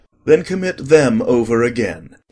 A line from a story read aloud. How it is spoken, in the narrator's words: he said gravely